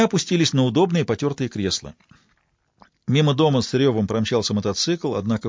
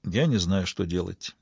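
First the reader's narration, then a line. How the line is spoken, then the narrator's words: Quiet admission. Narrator (Russian): тихо признался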